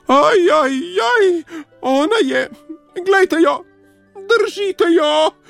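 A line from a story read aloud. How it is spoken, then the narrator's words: Squealing. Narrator (Slovenian): je cvilil Miško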